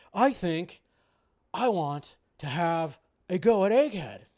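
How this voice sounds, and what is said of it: Bad Nicolas Cage impression. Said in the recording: “terrible Nicolas Cage impression”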